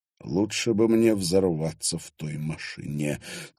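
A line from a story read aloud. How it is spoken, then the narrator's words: Quiet. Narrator (Russian): тихо сказал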